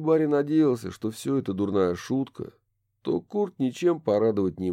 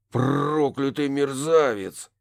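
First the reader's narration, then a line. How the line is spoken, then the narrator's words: Through gritted teeth. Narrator (Russian): процедил О'Салливан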